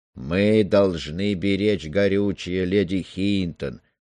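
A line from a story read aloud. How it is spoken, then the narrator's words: Sleepy reply. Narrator (Russian): сонно отозвался Стормер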